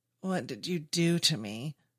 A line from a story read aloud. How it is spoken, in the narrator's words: David moans, his faculties returning to him